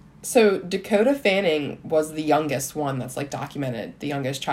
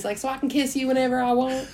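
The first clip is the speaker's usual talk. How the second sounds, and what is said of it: Put-on Southern American accent. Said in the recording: “Do I do a good Southern accent? ... You do, yeah.”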